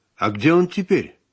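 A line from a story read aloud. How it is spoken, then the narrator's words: Plain. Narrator (Russian): спросила Марина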